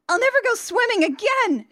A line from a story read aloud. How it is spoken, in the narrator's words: she screams